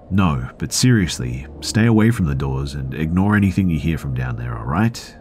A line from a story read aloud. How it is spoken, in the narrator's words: her tone got really serious and she said to me